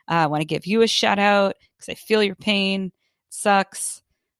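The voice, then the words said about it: Congested, phlegmy voice. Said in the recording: “I don't know if you can hear it in my voice, but I have been choking on phlegm for days”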